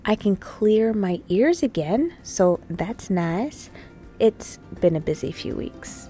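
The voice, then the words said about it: Slightly congested voice. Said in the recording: “as you can hear, my voice is mostly back. I'm still a little congested”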